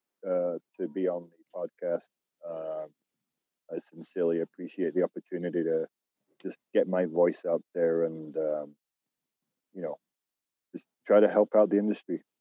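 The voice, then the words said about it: British accent, northern English. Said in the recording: “that accent we are hearing ... British ... From a small town outside of Manchester, England”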